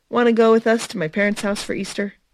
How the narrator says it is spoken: He laughed

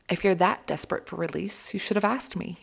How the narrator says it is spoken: he said

